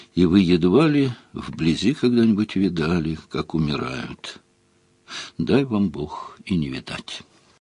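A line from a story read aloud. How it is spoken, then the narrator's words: Very quiet. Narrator (Russian): И совсем тихо произнес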